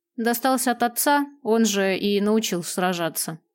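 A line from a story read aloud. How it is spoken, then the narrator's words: Cold reply. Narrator (Russian): холодно ответил странник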